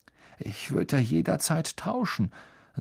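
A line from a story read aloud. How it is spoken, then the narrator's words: Hollow voice. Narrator (German): sagte Harry mit hohler Stimme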